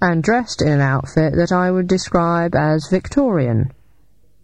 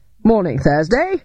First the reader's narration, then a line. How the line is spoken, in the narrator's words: said Victor cheerfully